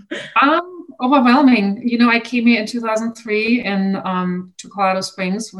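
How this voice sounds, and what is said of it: Non-American accent. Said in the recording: “from your accent, you're not American”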